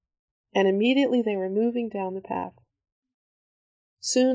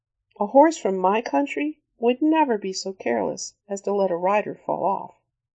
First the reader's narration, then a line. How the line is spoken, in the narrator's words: his voice smiled